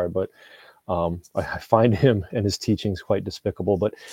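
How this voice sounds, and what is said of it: Usual voice. Nothing is said of it.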